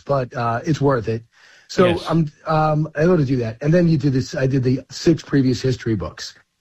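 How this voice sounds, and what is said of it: Slightly hoarse voice. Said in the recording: “losing your voice ... I'm a little hoarse”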